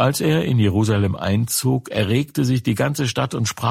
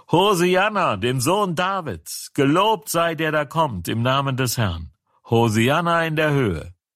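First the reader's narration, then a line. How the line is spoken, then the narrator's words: Crowd shouting. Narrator (German): Das Volk schrie und sprach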